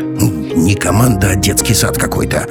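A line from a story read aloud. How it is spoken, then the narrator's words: Irritated grumbling. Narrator (Russian): раздраженно заворчал профессор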